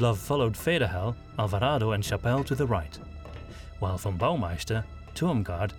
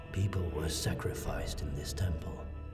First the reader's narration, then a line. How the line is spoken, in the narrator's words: Ludlov said softly